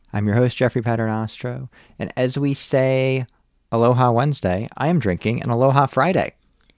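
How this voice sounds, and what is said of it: American accent. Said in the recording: “with an American accent.”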